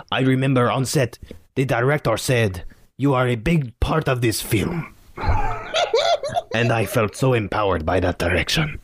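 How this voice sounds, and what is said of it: Put-on French accent, sounds Caribbean. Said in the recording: “I love how Puerto Rican your French accent ... Yeah, you're very Caribbean.”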